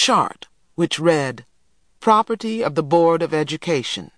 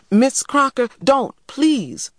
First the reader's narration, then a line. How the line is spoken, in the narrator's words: I cried